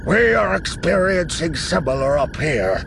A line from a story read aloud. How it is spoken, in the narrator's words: Akbar growls